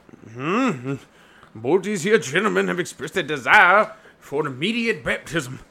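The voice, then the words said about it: Bad put-on accent. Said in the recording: “That was a bad accent”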